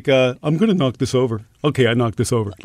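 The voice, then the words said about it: Speaks in a pet cat's voice. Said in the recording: “My cats have a voice ... Is it a baby talk? ... No, it's not baby ... you talk as if you're the cat.”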